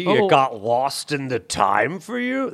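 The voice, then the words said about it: Imitates another person's voice, sarcastic. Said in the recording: “terrible Bernie impression ... I was trying to get his sarcasm”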